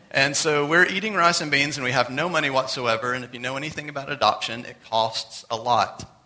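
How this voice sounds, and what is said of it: Very fast speech. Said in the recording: “I'm talking really fast.”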